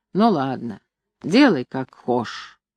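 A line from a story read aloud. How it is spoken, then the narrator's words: Grumbling. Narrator (Russian): ворчал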